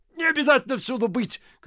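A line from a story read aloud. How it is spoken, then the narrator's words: Shouting. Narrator (Russian): кричал Ляпис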